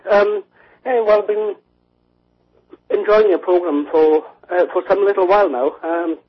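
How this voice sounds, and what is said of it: British accent. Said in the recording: “from the UK... Is my accent easy enough to follow?... It just sounds like home to me.”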